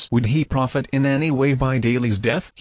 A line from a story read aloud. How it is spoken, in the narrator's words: he asked